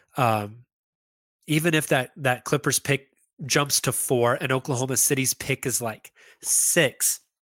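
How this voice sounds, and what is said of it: Stuffy, congested nasal voice. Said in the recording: “I'm starting to get really stuffed up in my nose. So I sound like an idiot.”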